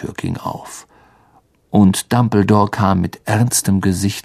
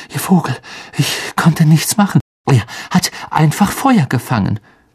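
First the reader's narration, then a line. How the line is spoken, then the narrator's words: Panting. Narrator (German): keuchte Harry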